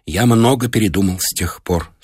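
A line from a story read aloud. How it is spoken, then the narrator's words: Trembling voice. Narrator (Russian): сказал Колесакин дрожащим голосом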